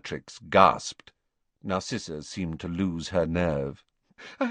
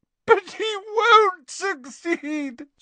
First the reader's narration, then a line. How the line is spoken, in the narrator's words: sobbed Narcissa